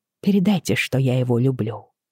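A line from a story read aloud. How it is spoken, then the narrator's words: Quiet. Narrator (Russian): тихо произнесла я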